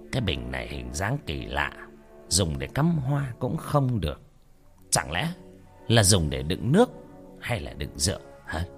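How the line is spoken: Muttering. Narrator (Vietnamese): Ông lẩm bẩm

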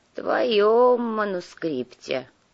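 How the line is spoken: Grumbling. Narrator (Russian): проворчали с кресла

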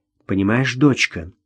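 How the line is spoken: Quiet, persuasive female voice. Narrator (Russian): негромко, но убедительно произнесла она

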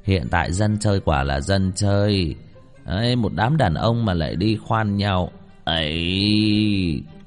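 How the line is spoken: Man sighing, disapproving. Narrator (Vietnamese): Một gã thổ hào không nhịn được lắc đầu thở dài

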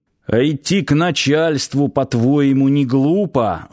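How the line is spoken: Old man grumbling. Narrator (Russian): заворчал старый варвар

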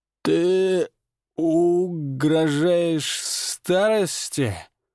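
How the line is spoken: Hoarse, strained. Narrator (Russian): выдавил он хрипло

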